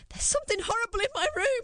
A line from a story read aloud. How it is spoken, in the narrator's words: I shrieked